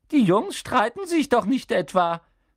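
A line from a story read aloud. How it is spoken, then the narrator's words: Squeaky voice. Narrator (German): quiekte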